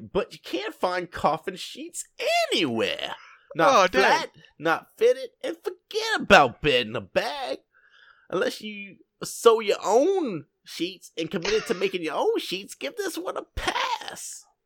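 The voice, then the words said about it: Imitates another person's voice. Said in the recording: “I don't know why you're in that accent, but it's really good. ... You sounded just like that person. ... Kevin James.”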